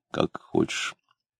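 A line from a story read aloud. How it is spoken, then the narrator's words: Confused mutter. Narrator (Russian): пробормотал растерянно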